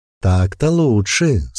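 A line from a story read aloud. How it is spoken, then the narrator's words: Purring. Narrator (Russian): сказала Ирма, промурлыков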